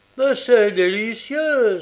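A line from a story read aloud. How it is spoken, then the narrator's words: Exclaimed. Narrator (French): s'écria-t-il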